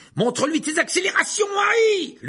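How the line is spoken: Shout. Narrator (French): lui cria Fred

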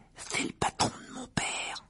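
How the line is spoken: Whispering. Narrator (French): chuchota Ron

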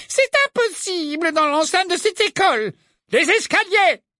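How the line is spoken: Exclaimed. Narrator (French): s'écria Dawlish

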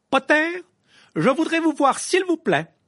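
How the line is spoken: Loud call over noise. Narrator (French): lança le professeur McGonagall d'une voix suffisamment forte pour couvrir le bruit ambiant

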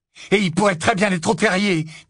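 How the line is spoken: Loud voice. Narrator (French): dit Ron d'une voix forte

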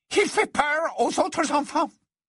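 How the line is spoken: Sudden hurried voice. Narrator (French): elle dit soudain d'une voix précipitée

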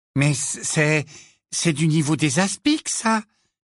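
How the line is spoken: Timid voice. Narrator (French): dit-il d'une voix timide

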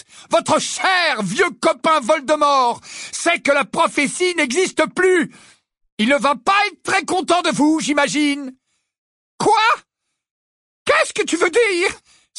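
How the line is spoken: Exclaiming. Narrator (French): s'écria-t-elle

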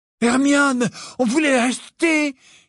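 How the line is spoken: Exclamation. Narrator (French): s'écria Ron

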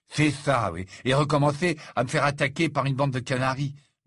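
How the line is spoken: Muttered. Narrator (French): marmonna Ron

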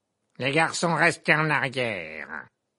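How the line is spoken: Barked sharply. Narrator (French): aboya le professeur Gobe-Planche

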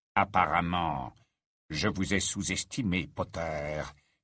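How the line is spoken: Low-voiced retort. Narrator (French): répliqua-t-il à voix basse

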